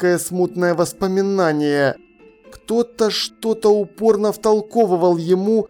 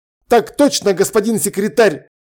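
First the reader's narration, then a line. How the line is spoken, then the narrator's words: Barking. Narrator (Russian): рявкнул он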